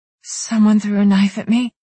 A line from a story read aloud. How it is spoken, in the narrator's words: She exhaled slowly, shakily, then whispered